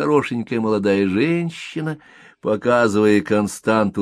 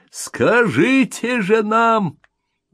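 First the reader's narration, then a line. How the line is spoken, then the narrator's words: Offended shout. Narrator (Russian): прокричал человек, попросту разобиженный, но не потерявший человеческий облик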